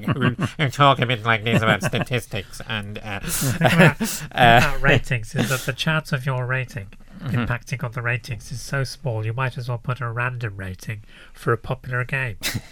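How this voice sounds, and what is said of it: Nerdy pedantic voice. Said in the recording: “It's just generic nerd voice.”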